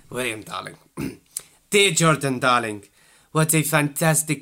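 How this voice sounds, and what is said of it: Imitated voice drifting into French accent. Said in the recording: “Why am I going French? I sound like frigging Poirot.”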